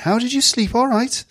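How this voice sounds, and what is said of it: Put-on Welsh accent. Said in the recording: “that Welsh accent again”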